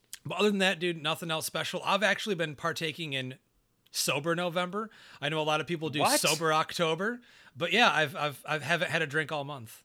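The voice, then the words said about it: Very fast, wired speech. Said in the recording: “I'm talking like a million miles a minute.”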